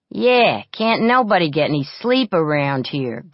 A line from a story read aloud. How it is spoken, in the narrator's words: grumbled Duffy